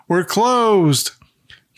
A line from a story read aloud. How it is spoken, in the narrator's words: Carl shouts